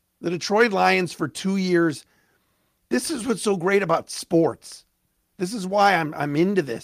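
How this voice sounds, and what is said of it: Excited voice cracking. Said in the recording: “I am so fired up... my voice is cracking”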